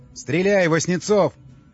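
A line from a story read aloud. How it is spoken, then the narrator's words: Shout. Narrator (Russian): заорал Андрей Макаров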